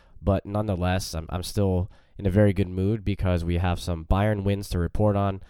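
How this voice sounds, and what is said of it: Slightly congested, under-the-weather voice. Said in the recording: “Slightly under the weather, currently battling a little bit of a cold, as you can probably hear in my voice.”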